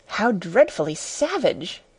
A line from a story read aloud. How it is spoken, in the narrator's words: exclaimed Alice